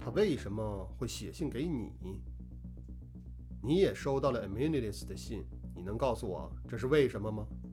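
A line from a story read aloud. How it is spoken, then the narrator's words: Calm, flat tone. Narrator (Chinese): 罗非仍是淡淡的语调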